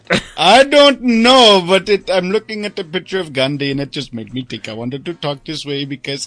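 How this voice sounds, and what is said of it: Put-on accent. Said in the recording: “That accent?... You can stop now, please.”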